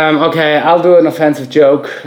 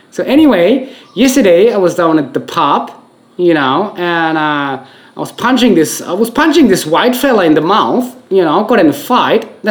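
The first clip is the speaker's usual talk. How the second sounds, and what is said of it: Imitated Australian accent, not convincing. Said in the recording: “I pretend to be an Australian now ... I'm just trying to rehearse my accent here ... I'm not going to nail the accent,”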